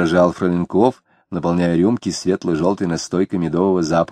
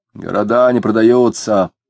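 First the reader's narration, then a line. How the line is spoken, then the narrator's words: Gloomy shouted reply. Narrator (Russian): угрюмо открикнулся Денисов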